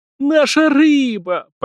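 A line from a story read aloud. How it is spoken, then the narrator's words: Near moan. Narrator (Russian): почти простонал Виктор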